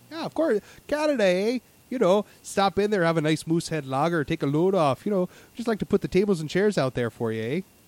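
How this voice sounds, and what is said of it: Put-on Canadian accent, slightly Scottish. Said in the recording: “my Canadian accent ... I can almost understand it ... It doesn't sound quite as Scottish anymore ... you're really getting the true Canada ... You sound like a Newfie. That's someone from Newfoundland”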